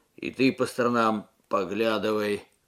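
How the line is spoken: Grumbled mutter. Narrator (Russian): буркнул Алексей

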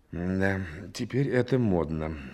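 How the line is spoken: Sigh. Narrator (Russian): вздохнул Рябинин

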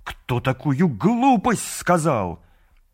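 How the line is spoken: Exasperated exclamation. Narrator (Russian): Муравьед в сердцах воскликнул

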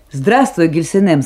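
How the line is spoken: Cheerful. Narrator (Russian): сказал он весело

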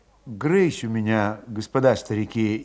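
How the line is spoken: Indistinct whisper. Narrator (Russian): невнятно шептал Федот

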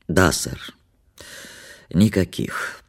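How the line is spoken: Sleepy, hoarse, stifling yawn. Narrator (Russian): подтвердил он сонно своим хриплым голосом без особого почтения и с трудом подавил зевок

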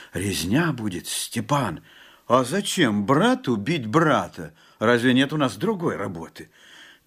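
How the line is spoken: Frightened whisper. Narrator (Russian): Жапак только прошептал в страхе

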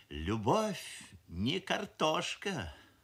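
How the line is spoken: Sighing mother. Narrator (Russian): вздохнула мамаша, шеф-повар фабрики кухни номер 7

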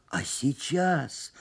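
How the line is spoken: Hoarse. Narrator (Russian): спросил я хрипло

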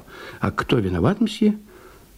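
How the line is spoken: Whisper. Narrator (Russian): Приказчик прошептал

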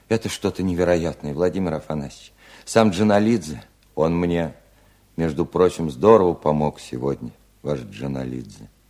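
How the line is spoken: Quiet interruption. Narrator (Russian): тихо прервал Устименко

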